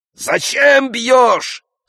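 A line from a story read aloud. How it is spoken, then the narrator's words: Crowd shouting. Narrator (Russian): закричали вазеронцы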